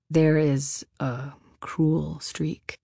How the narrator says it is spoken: William said, saying the words slowly, as if he hand-picked them with great caution

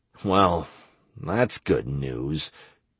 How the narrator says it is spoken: I said sadly

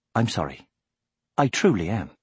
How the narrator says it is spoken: she said softly

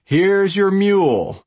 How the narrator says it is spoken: the voice called out

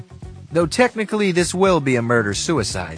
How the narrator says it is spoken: he laughed

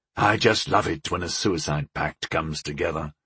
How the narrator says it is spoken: agreed the outlaw grimly

